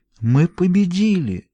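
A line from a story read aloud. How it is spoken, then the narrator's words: Amazed, awed mumble. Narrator (Russian): изумленно пробормотала Таппинс, и в ее тоне слышался благоговейный страх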